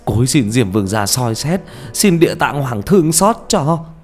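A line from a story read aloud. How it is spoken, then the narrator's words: Wailing in tears. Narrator (Vietnamese): gào lên trong nước mắt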